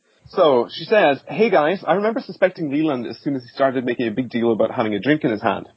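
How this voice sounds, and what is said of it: Speaks with a pleasant accent. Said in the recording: “your lovely accent”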